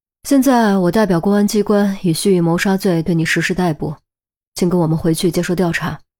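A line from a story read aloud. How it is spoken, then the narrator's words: Sighing. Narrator (Chinese): 陈红也叹了口气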